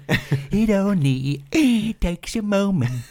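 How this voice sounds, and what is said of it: Sung imitation of another person's voice. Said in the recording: “doing a little Michael Crawford impression.”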